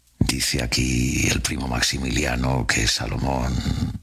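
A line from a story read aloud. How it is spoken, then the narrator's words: Murmured. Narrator (Spanish): Don Juan III murmuró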